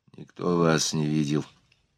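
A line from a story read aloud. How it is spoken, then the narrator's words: Whisper. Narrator (Russian): прошептал он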